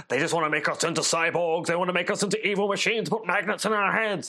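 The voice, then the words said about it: Imitates another person's voice. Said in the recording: “my terrible Alex Jones impression”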